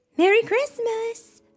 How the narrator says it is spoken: someone shouted

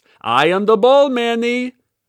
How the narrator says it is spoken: she shouted

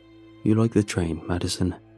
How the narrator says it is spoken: he says

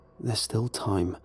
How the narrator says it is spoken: I mumbled to myself

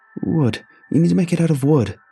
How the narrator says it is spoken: pleaded

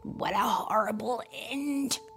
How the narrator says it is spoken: Kermit said with a groan

